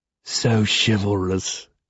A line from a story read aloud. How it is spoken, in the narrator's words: he sneers